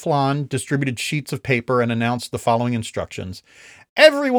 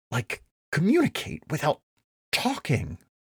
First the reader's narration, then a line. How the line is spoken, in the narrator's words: Pats hissed